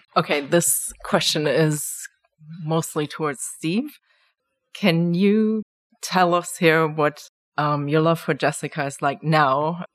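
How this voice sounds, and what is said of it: Speaks with a noticeable accent. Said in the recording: “My accent will give me away.”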